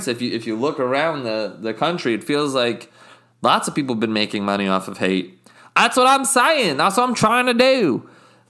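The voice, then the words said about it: Inconsistent put-on accent. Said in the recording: “my accent's really inconsistent”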